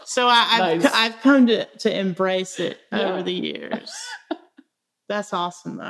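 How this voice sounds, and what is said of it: Old Southern American accent. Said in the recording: “your accent ... It's like old Southern. ... It's like in movies, what they make the Southern lawyer sound like is what your voice is like. ... it's kind of like a good storyteller voice.”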